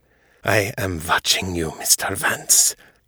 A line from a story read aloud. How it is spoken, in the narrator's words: he said, his tone low and dangerous